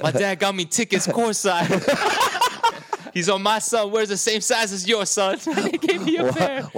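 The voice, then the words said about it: 1970s jive slang voice. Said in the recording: “talk like a jive turkey from the 70s”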